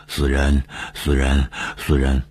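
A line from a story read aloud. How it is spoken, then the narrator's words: Sinister muttering. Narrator (Chinese): 长久的狞笑，嘴里嘟囔着说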